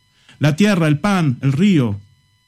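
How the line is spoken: Plain. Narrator (Spanish): dijo otro

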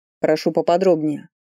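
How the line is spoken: Cold demand. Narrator (Russian): холодно потребовал он

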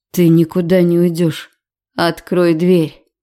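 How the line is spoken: Hoarse rasp. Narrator (Russian): Сиплю я

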